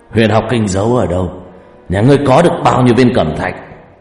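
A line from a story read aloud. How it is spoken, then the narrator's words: Strained, gritted voice. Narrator (Vietnamese): Kiên Bạc bị Hưng dùng hai xúc tu nhấc cổ, hắn gằn giọng nói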